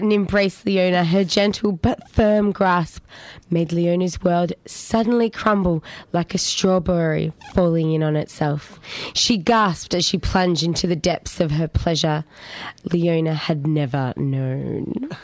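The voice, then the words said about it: Husky, sexy reading voice. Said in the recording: “You've got a sexy voice for it, I must say. ... It's gone a little bit huskier.”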